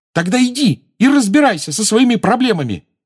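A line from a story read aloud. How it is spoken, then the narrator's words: Furious exclamation. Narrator (Russian): разъяренно воскликнула Джоу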